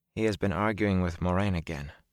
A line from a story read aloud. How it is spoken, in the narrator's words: Min said quietly